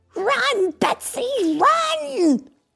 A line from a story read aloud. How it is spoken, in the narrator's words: Rex called out